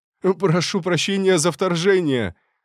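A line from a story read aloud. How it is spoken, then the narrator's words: Breathless male shout. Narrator (Russian): выкрикнул он, задыхаясь от быстрого бега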